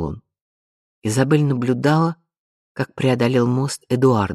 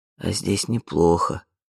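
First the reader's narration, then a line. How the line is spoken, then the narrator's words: Whisper. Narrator (Russian): прошептал Тори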